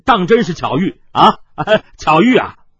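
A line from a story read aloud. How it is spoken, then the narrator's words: Forced laugh. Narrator (Chinese): 黑星天白星武干笑道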